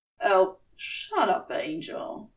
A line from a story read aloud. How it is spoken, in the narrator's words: he rasped